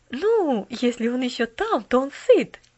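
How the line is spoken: Cheerful interruption. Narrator (Russian): весело прервала миссис Керю

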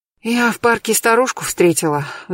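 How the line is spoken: Sighing. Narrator (Russian): вздохнув, сказала я

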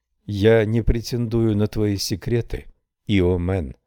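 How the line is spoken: Plain. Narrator (Russian): сказала женщина

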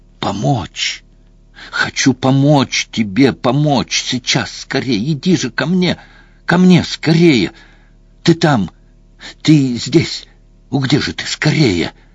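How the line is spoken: Hoarse, hissing, icy voice. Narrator (Russian): Самое страшное в этом голосе были не хрип и шипение, и не вселенский холод, звучавший в нем

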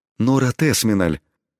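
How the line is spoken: Astonished emotional breath. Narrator (Russian): пораженно выдохнул дворецкий, дав волю своим чувствам

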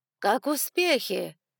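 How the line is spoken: Loud question. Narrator (Russian): громко спросила миссис Мелисса

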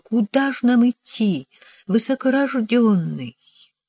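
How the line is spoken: Trembling voice. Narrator (Russian): Дрожащим голосом я спросила

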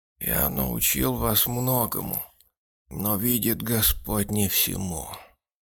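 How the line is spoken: Old man sighing. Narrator (Russian): вздохнув сказал старик

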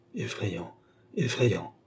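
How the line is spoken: Murmured. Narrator (French): murmura Tavernet

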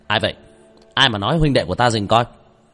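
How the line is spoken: Angry shout. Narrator (Vietnamese): Tôn Mãn Giang quát lên

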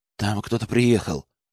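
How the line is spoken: Worried voice. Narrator (Russian): обеспокоенным голосом ответил Арсений

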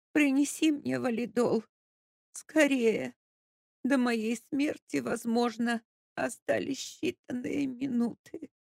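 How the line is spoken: Loud moaning plea. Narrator (Russian): Капитолина Андреевна, ничуть не смутившись, застонала еще громче и попросила

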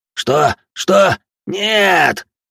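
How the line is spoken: Yelled. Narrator (Russian): заорал иной

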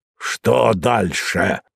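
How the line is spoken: Angry question. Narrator (Russian): злобно спросил Мозес

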